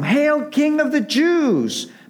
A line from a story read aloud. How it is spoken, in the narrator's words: Mocking and sneering